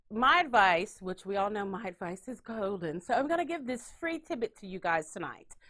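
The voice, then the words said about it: Put-on British accent. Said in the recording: “I did it in my British accent ... My British accent's getting a lot better.”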